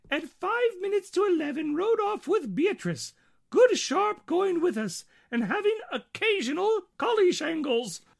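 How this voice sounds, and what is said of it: Impression of Queen Victoria. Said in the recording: “your impression of Queen Victoria”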